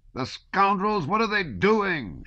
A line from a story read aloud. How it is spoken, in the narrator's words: shouted the officer